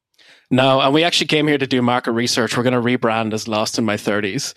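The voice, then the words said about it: Irish accent. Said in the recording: “Obviously, you're both Irish, if anyone can hear your accents.”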